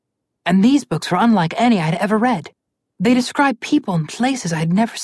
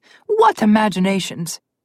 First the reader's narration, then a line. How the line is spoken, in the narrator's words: Froggy chuckled at the thought of this